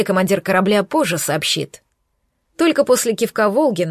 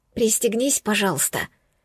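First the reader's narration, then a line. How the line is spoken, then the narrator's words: Whisper. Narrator (Russian): прошептала я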